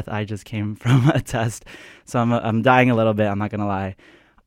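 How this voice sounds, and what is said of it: Out of breath. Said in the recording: “Sorry if I do sound a little bit out of breath.”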